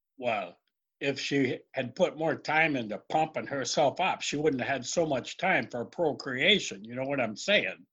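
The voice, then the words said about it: Slight put-on Irish accent. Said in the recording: “you sound a little Irish there ... it's hard to stay in character”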